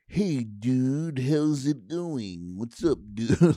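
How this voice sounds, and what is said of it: Exaggerated California surfer accent. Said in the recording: “Like a weird California accent.”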